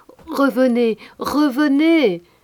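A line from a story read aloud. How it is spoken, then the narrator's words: Shouting. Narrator (French): Et tous, Pierre, Jacques, Gaspard, leur criaient aussi de revenir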